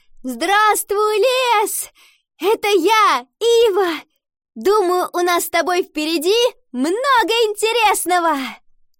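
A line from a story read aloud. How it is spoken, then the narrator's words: Shout. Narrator (Russian): она крикнула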